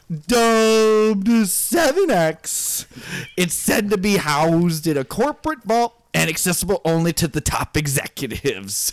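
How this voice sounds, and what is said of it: Imitates another person's voice. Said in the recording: “That was more like Emo Phillips.”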